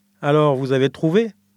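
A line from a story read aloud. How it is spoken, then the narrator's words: Plain question. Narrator (French): demanda une voix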